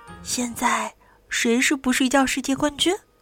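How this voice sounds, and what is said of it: Quiet, soft question. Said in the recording (Chinese): “小声问”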